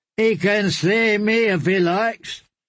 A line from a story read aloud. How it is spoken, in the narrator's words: One of the dancers called out